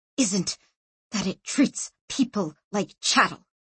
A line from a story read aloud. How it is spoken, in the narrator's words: she hissed slowly, forcing the words out